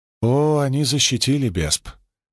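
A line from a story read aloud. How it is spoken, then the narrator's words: Sad reply. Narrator (Russian): как-то грустно ответила Ада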